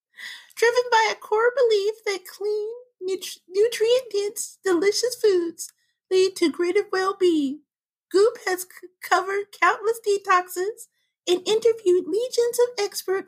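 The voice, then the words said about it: Bad Gwyneth Paltrow impression. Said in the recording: “read the statement in her voice ... I have a Gwyneth. It's not just a Gwyneth voice ... a generic voice that she reads everything in and is quite Karen Becky / Gertrude-ish ... She has a very bad impersonation, but yet funny.”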